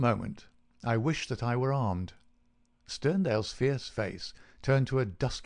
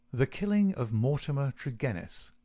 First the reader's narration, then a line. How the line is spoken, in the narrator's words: said Holmes